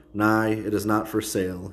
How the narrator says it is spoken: he said flatly

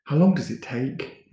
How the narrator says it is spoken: Ricky asked, his voice quivering

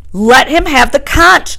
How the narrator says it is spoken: shouted Piggy

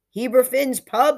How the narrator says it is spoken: shout

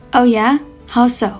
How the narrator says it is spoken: Sun Lung asked

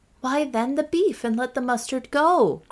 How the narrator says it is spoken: cried Catherine, who was getting hungrier and hungrier

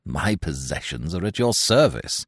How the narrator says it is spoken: replied bitterly

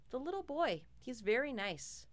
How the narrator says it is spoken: she just calmly said

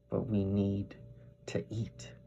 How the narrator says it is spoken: I whispered

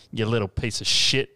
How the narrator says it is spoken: he sneers

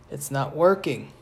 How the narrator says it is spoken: Bess murmured

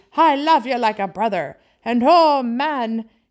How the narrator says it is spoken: he cried in a kind of ecstasy

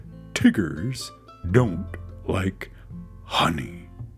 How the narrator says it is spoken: he said, in a very decided voice

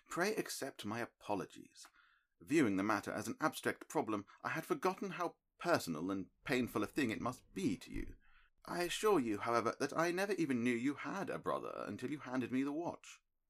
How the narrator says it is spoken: said kindly

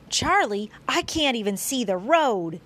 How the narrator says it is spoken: he yelled

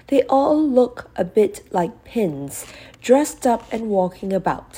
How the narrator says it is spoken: said Molly with a giggle

